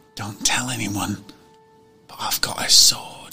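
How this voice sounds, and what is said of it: Whispering. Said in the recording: “I whisper”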